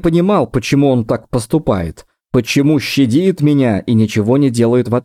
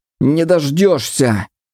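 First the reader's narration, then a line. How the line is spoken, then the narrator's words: Moaning protest. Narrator (Russian): скорее простонал, чем возразил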